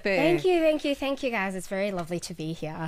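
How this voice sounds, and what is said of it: Australian-sounding accent. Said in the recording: “That accent, we literally have goosebumps... To go live in Australia, mate.”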